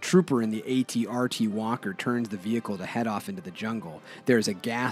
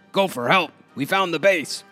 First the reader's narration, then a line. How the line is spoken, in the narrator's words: The sergeant yells up to the walker